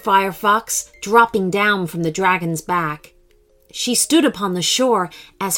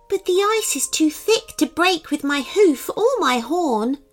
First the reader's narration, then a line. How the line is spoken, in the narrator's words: whined the unicorn